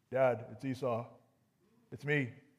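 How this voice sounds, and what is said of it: Lowered, deeper voice. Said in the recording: “lower my voice a little bit”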